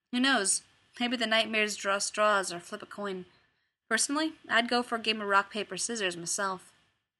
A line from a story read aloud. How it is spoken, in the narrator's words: in the same mild tone of voice answered